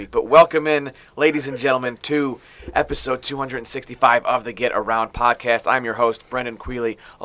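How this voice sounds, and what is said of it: Slightly raspy voice. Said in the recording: “You can hear my voice. It's a little raspy, but it's not because I have a cold. It's because I was cheering too loud”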